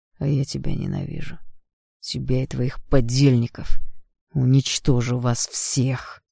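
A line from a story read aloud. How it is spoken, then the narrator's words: Growling. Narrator (Russian): прорычал он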